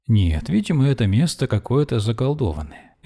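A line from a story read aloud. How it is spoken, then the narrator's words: Cheerful. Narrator (Russian): весело говорила она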